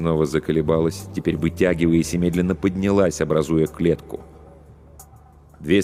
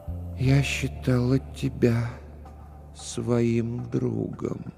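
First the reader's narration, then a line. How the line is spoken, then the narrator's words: Slow. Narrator (Russian): Ее губы медленно произнесли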